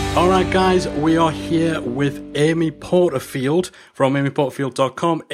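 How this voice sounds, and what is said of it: Speaks with a noticeable accent. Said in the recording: “I love how you say my last name, that accent. It's just, you make me sound a little bit more important.”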